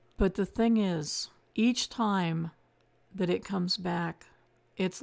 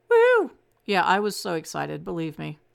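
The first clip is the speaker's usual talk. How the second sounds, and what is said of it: Sarcastic mock-excited delivery. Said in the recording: “That was sarcasm.”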